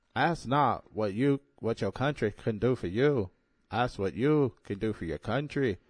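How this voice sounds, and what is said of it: John F. Kennedy impression. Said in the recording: “impersonation of former president John F. Kennedy Jr.”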